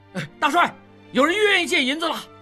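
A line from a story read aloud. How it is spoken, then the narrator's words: Shouting. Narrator (Chinese): 几个兵 叫道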